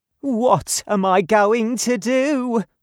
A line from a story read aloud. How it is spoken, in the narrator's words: cried